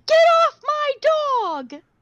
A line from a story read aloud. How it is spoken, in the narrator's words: Tara in the yard yelling